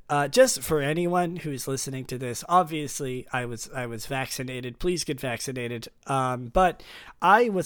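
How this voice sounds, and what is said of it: Groggy, deeper-than-usual sick voice. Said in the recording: “my voice is a little groggy, if it's a little deeper than usual, it's because I'm sick”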